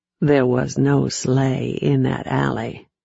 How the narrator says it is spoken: said softly

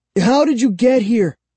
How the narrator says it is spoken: I cried, finding my voice

